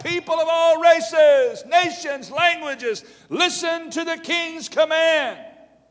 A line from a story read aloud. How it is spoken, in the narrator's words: a herald shouted out